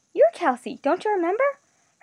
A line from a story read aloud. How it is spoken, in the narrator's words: Her voice was rising higher